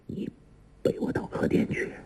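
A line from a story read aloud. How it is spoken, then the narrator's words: Low voice. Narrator (Chinese): 王处一低声说道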